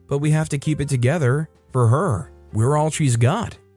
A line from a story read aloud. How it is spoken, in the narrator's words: said in a calm voice